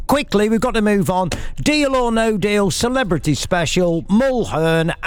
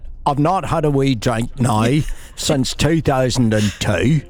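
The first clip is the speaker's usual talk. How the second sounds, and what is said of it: Northern Irish accent. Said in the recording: “The Northern Ireland accent.”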